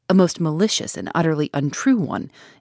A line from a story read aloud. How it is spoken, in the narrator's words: interrupted Alfred Inglethorpe in an agitated voice